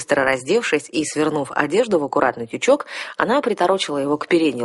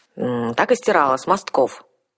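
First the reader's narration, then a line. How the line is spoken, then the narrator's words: Grumbling. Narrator (Russian): проворчала девушка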